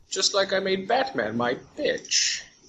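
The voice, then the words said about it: Weird put-on villain accent. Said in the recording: “I like saying bitch with this weird accent ... pretending to be Bane”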